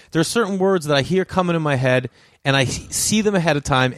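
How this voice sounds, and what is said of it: Boston accent. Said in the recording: “I got this with my accent for having a Boston accent ... I see them and hear them in a Boston accent because that's where I'm from”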